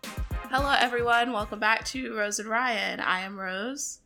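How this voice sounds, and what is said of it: Slightly unwell, strained voice. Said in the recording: “my voice is not 100%.”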